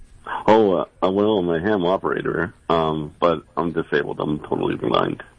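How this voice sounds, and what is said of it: Rich, resonant radio-style voice. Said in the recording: “you have a radio voice ... Your voice is amazing. You got a great voice.”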